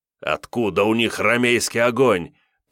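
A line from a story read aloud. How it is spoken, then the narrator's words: Doubtful scoff. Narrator (Russian): недоверчиво хмыкнул герр Йозеф Райс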